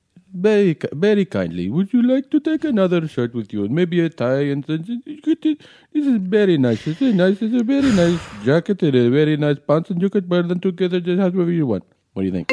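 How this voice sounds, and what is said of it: Put-on Indian accent. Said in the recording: “So Indian. ... I'm a Indian guy, but I live in Hong Kong. ... I'm Indian guy from Hong Kong.”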